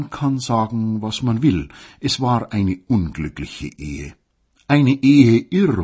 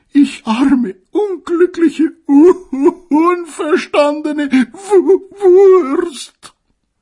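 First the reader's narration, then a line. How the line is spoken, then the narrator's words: Sobbing, female. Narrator (German): schluchzte sie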